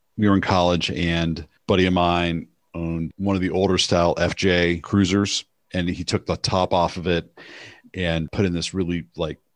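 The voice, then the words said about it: Soft radio voice. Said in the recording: “I'm using my soft radio voice right now”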